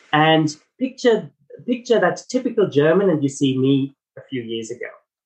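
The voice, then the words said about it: German accent. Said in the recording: “my accent, it's not South African, I'm German heritage”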